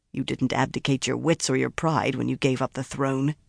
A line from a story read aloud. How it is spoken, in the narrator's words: he muttered